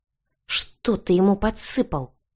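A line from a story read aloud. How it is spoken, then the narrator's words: Hushed hiss. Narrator (Russian): Прижимая к себе спящего сына, прошипела я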